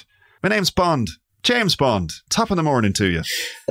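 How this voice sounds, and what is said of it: Pierce Brosnan's Bond, slight Irish accent. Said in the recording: “Pierce Brosnan as Bond, I always imagine him with a slightly Irish accent.”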